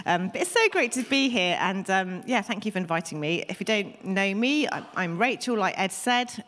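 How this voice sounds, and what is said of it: Deep, husky voice from a cold. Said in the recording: “I have got a bit of a cold, so my voice is not normally quite so deep and husky.”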